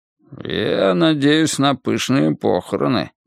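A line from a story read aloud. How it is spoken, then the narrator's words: Grumbling mutter. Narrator (Russian): пробурчал Джамбо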